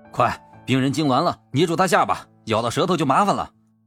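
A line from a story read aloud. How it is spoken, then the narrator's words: Panicked shouting. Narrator (Chinese): 惊慌的喊着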